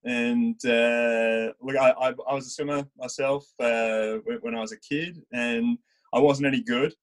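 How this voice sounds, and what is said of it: Australian accent. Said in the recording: “I obviously am from Australia, hence the accent.”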